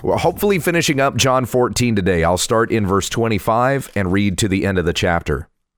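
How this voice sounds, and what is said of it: Slightly congested voice. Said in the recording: “I am a little congested here. I'm not even sure how long my voice is going to hold out”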